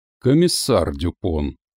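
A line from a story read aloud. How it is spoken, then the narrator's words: Soft but firm. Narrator (Russian): поправил он мягко, но твердо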